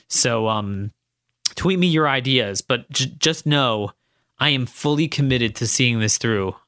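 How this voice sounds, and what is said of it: Strained, fading voice. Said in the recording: “losing my voice ... because in addition to writing all week, I've been talking all week”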